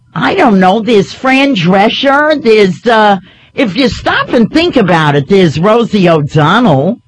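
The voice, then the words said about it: New York area regional accent. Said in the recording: “You're from New Jersey. You've heard my accent.”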